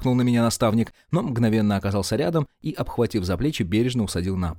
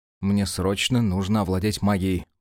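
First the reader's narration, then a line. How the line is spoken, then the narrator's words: Mumbled excuse. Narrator (Russian): промямлил в свое оправдание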